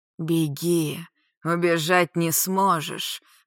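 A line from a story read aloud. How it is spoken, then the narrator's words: Hoarse wheeze. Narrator (Russian): просипел лорд ей вслед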